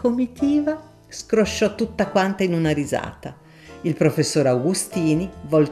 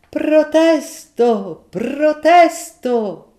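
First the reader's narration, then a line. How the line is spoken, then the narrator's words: Lawyer's comic shout. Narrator (Italian): gridò l'avvocato comicamente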